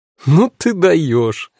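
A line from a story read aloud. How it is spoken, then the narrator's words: Sudden laughter. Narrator (Russian): неожиданно рассмеялась Ханна Лора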